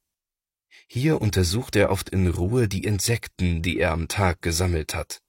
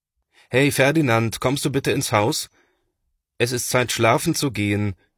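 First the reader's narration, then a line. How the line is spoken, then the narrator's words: Father calling out. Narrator (German): ruft Papa nach ihm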